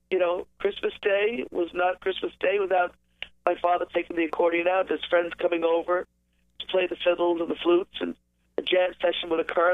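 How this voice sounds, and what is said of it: Congested voice from a cold. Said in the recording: “I have a bit of a cold”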